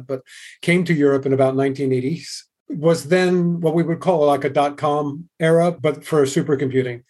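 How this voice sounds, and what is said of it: Non-European accent. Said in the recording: “as you probably can detect from the accent, I'm not native to the European environment”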